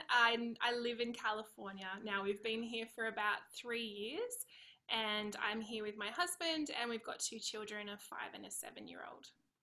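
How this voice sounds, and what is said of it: Australian accent. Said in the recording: “you've got an Aussie accent”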